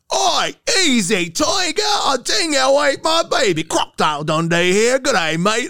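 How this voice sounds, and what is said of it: Thick put-on Australian accent. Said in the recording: “I would like just thicken the accent”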